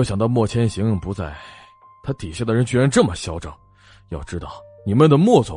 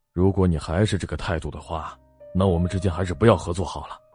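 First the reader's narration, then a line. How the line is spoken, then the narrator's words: Meek, humble pleading. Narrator (Chinese): 但为了公司着想，他还是低声下气的说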